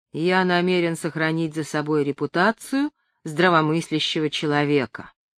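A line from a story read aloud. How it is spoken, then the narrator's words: Icy. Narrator (Russian): ледяным тоном произнес Бэббингтон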